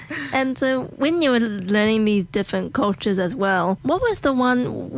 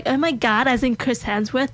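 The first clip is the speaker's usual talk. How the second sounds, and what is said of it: Put-on American accent, not very good. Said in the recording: “my American accent's not really that good”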